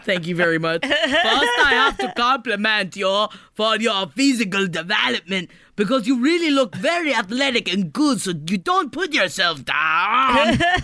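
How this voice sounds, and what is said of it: Imitates another person's voice. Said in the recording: “my Arnold Schwarzenegger impersonation ... You kind of need a little more in the throat ... You got to kind of get throatier with it.”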